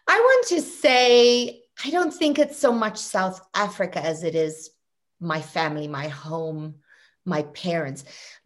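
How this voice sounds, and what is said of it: South African accent. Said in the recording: “growing up in South Africa ... I think people noticed your accent.”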